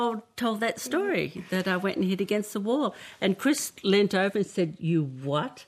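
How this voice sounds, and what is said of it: Usual voice. Nothing is said of it.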